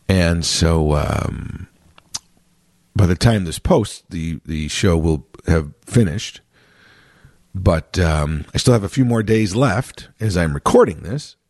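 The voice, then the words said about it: Hoarse, strained voice. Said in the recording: “my instrument is a little hoarse today. I've had some vocal issues ... it's pretty taxing on the body and the voice”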